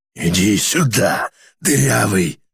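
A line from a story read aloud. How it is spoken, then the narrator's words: Hoarse wheeze. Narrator (Russian): хрипел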